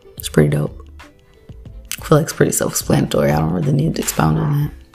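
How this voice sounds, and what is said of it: Speaking in a low voice. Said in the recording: “Why are you talking so low?”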